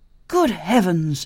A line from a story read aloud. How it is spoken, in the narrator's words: exclaimed Jean